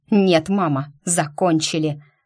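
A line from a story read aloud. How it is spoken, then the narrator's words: Barking. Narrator (Russian): рявкнул он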